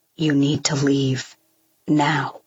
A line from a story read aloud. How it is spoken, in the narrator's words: his voice is steady and unaffected